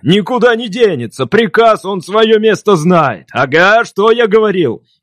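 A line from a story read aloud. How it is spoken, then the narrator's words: Shouting even louder. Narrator (Russian): Еще громче закричал он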